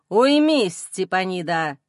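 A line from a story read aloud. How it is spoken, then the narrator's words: Father's cold rebuke. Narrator (Russian): Холодным тоном осаждает ее отец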